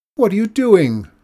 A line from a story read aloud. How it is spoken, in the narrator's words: cried Mikola in surprise